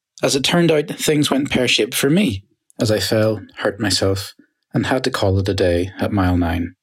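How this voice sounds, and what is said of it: Irish accent. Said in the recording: “I do love an Irish accent.”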